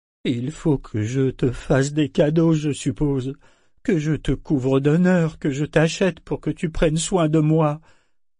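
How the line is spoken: Whining. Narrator (French): pleurnicha-t-il

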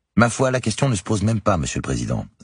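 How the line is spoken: Irritated retort. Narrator (French): a rétorqué Nancy d'un ton agacé

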